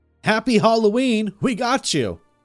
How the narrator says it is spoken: yell

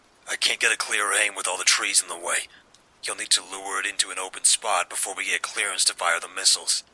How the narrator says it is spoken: he said

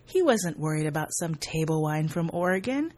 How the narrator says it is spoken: Jacques Fournier laughed and said

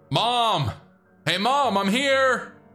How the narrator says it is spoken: yelled

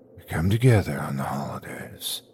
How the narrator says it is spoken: whispered

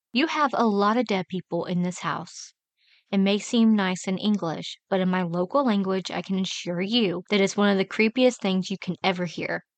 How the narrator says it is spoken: told me in a nice voice

